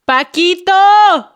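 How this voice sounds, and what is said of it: Shouting. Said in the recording (Spanish): “¿por qué me estás gritando?”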